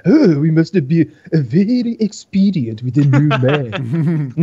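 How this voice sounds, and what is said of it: Put-on Japanese accent. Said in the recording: “I'm gonna use my Japanese accent”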